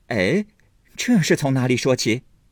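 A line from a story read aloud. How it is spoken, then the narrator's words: Puzzled, awkward laugh. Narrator (Chinese): 黛玉也摸不着头脑，也跟着讪讪的笑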